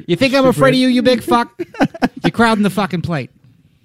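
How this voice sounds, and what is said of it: Put-on Boston movie accent. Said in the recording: “before the accent ... dude, I can nail the accent.”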